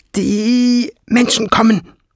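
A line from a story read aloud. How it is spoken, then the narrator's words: Shrill, echoing hiss. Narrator (German): fauchte so schrill, dass ihre Stimme in der Höhle widerhallte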